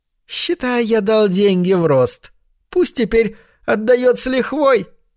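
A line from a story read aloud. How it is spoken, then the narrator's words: Giggle. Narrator (Russian): Хорек снова хихикнул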